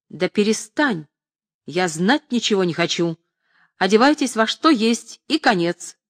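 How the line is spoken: Menacing shout. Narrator (Russian): грозно закричал содержатель труппы

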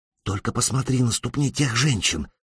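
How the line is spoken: Whispering. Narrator (Russian): прошептала Элизабет

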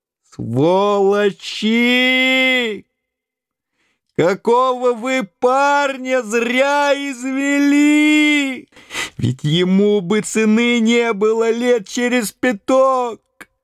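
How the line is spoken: Old man shouting. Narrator (Russian): дед закричал

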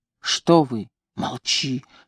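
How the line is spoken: Whispered. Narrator (Russian): шептала она

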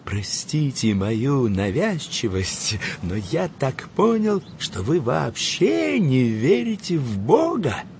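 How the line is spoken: Near-whisper, furtive. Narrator (Russian): снизив почти до шепота голос, сказал

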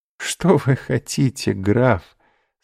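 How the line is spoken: Laughing. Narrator (Russian): сказала, смеясь, госпожа де Вильфор

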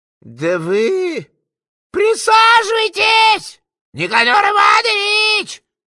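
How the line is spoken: Unabashed shouting. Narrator (Russian): Опять-таки не смущаясь, орал гражданин

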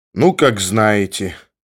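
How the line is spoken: Languid, weak voice. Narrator (Russian): сказал томным голосом ослабевший зоолог

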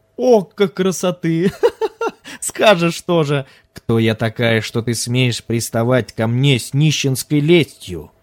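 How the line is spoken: Laughing. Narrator (Russian): давно позабытое обращение заставило ее рассмеяться

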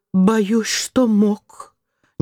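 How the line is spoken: Crestfallen voice. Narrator (Russian): Белый упавшим голосом

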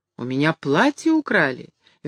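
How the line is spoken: Cheerful reply. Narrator (Russian): весело отвечал Каютин

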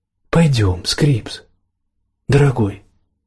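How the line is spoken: Soft repetition. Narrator (Russian): мягко повторила Даяна

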